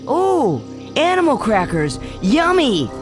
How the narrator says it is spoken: the boy shouted

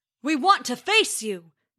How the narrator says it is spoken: bellowed Thor

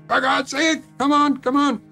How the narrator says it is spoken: I was screaming into the phone

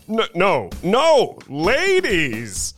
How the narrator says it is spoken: cried Mr

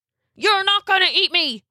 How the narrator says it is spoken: he hollered

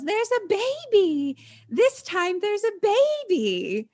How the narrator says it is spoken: Irene yells

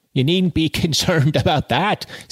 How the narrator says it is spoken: said Arabella, laughing

